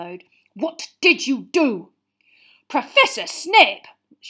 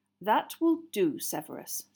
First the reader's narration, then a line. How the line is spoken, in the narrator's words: said Dumbledore quietly